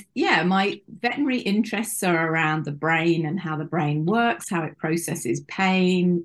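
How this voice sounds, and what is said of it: British accent. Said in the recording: “As you may be able to guess from my accent, I am from the UK”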